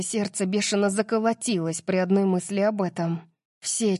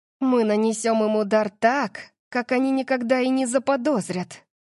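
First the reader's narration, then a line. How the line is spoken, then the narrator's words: Excited breathless exhale. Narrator (Russian): взволнованно выдохнула я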